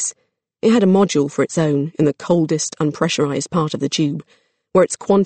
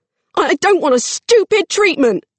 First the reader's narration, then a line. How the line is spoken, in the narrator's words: she yelled